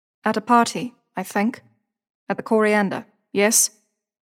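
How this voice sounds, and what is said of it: South African accent. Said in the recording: “Not British, not Australian. ... South African.”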